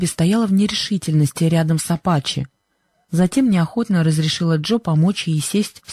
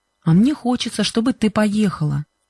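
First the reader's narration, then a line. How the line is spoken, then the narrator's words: Plain. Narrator (Russian): ответил Джо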